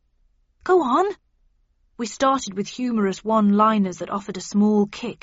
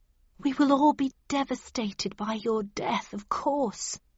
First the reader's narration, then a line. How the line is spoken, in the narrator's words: whispered Mrs